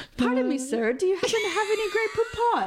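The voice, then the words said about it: Unconvincing British voice, slightly higher pitch. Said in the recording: “You don't sound British. You just raise your voice a little bit higher.”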